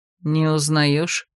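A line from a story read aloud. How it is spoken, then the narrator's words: Snorting hmph. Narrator (Russian): хмыкнул Иридас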